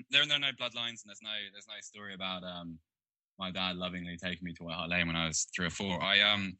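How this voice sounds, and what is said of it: Posh English accent. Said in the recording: “it's quite a posh accent that you've got. It's not a typical North London.”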